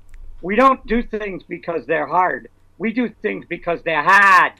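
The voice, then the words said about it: Boston accent Kennedy impression. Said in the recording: “Thank you for that Boston accent.”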